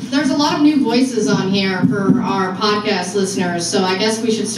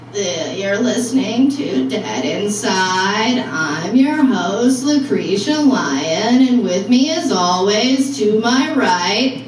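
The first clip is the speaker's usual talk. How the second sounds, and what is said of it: Deliberate creaky vocal fry. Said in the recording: “I guess I need to do it in my vocal fry.”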